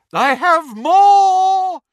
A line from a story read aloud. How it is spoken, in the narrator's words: shrieked Professor Trelawney from over the banisters